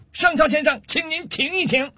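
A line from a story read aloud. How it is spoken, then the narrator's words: Angry loud shout. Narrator (Chinese): 上尉气得涨红了脸，冲着上校的方向大声喊道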